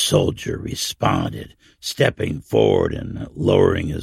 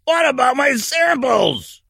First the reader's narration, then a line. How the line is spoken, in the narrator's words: the old man yelled